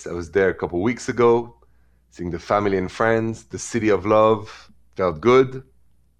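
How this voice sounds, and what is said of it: French accent. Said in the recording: “The accent is French because I'm from Paris.”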